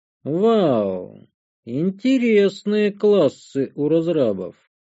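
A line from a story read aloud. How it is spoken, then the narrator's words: Drawling. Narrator (Russian): протянул я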